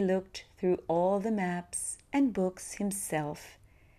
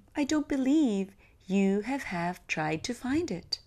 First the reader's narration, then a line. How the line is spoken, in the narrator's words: cried the king